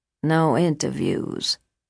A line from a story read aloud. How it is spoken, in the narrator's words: she mumbled almost incoherently